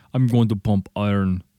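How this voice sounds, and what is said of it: Imitates another person's voice. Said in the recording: “my Arnold Schwarzenegger impression”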